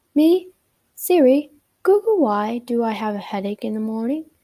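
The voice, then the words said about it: Put-on British accent. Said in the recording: “I'll say this in a British accent now”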